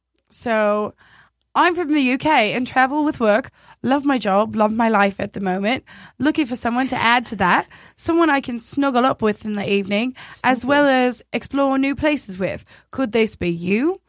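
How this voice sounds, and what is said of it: Attempted British accent. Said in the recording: “from the UK, so I'm going to attempt to do an accent”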